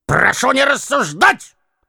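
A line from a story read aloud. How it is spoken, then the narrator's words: Full-force trembling shout. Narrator (Russian): крикнул за всей силой Евстрат Спиридоныч и задрожал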